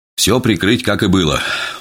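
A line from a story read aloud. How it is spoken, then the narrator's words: Weary command. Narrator (Russian): устало приказал я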